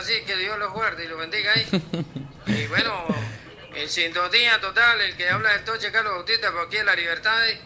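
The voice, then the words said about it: Regional Spanish accent. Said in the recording (Spanish): “Me encanta la... El acento de”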